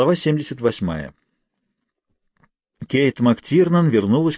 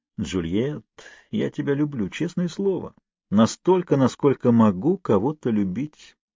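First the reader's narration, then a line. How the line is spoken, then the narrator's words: Mumbling gentleman. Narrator (Russian): пробормотал джентльмен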